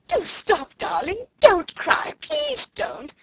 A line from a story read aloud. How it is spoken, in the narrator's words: screamed Miss Amelia